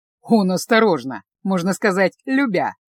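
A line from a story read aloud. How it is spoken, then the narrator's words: Snort. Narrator (Russian): фыркнул Себастьян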